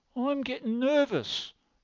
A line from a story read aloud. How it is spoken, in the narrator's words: cried the stout mother